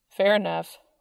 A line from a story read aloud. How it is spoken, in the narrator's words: said Dean